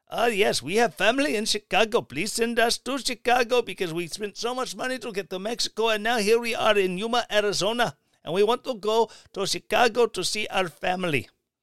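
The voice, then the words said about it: Put-on Indian accent. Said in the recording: “Insert random foreign accent being caught snuck across the border. I don't know, an Indian accent. ... I did intentionally pick an Indian accent”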